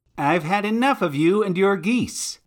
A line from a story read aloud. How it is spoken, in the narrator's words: he shouted